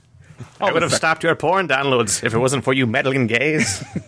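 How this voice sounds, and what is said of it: Old man character voice. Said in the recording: “That's a good old man voice. ... I'll do a weird old man voice.”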